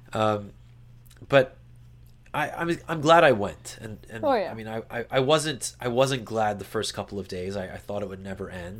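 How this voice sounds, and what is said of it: Sick, worn-out sounding voice. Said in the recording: “I definitely still feel like garbage, as you can probably tell from my voice.”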